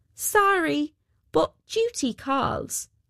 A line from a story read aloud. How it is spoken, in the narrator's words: cried out